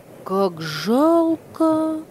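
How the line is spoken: Exclamation, boy. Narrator (Russian): воскликнул мальчик

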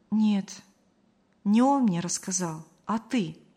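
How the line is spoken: Calm. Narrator (Russian): спокойно сообщила Мария

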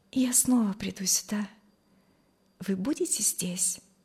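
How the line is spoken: Shy quiet voice. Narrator (Russian): сказала тихо и залилась румянцем

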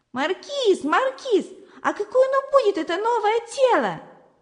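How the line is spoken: Shouting. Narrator (Russian): кричала Зося

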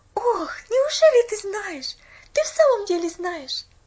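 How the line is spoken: Pleading. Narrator (Russian): Взмолилась Поллианна

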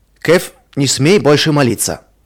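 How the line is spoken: Stern. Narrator (Russian): строго сказал он

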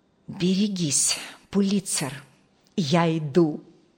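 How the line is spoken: Whispering. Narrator (Russian): прошептал Джейсон

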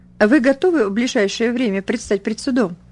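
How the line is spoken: Matter-of-fact inquiry. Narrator (Russian): будничным голосом осведомился он

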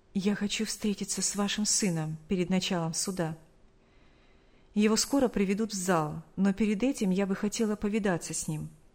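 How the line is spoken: Quiet whisper. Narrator (Russian): тихо шепнула

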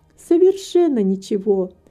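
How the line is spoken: Laughing and crying at once. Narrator (Russian): сказала Рита, смеясь и плача одновременно

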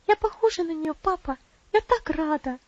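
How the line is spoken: Lively joyful girl's exclamation. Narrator (Russian): живо воскликнула девочка

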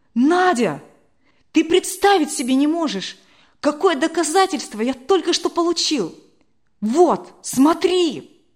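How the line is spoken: Exclamation. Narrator (Russian): он воскликнул

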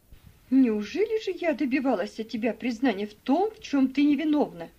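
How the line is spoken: Exclaiming. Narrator (Russian): воскликнула мисс Офелия

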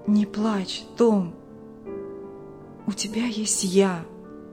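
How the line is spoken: Soft whisper. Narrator (Russian): тихий голос шептал

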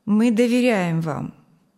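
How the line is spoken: Calm, reassuring director. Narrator (Russian): спокойно сказал директор

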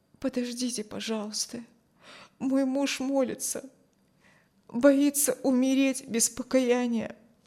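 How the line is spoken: Quiet. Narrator (Russian): тихо сказала

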